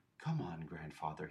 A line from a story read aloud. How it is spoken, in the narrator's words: he said gently